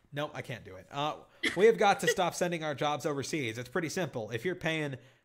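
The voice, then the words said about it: Ross Perot impression, Texan drawl. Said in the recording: “I'm going to try to do a Ross Perot impression. He had an interesting voice ... he was from Texarkana. And the way SNL did his voice was hilarious”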